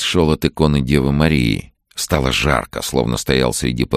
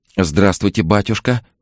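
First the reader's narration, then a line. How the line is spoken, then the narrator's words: Woman babbling. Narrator (Russian): лепетала женщина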